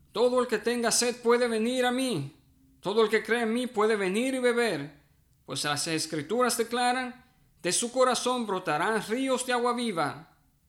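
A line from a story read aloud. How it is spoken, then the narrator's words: Shout to a crowd. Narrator (Spanish): Jesús se puso de pie y gritó a la multitud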